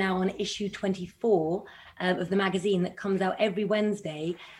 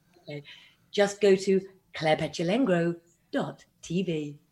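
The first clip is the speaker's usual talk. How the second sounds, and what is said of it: Cheesy radio presenter voice. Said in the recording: “radio voice ... do the radio voice ... the cheesy”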